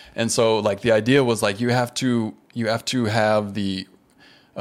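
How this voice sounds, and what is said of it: Usual voice. Nothing is said of it.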